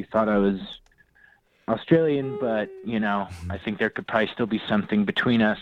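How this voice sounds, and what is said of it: Terrible fake Australian accent. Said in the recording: “my fake accent ... a little bit of a drawl ... That was a terrible accent. ... You used every Australian cliche you could come up with.”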